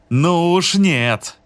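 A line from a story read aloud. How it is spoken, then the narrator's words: Shouted. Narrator (Russian): закричал Непрушин в зале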